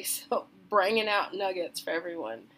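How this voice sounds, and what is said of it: Weird country accent. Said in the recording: “used this weird country accent there and I actually typed it out phonetically”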